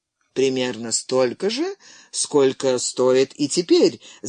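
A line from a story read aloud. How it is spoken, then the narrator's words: Laughing. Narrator (Russian): засмеялся Джон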